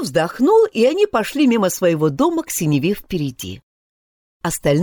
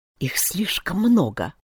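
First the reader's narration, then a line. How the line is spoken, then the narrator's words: Quiet. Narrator (Russian): Джо тихо сказал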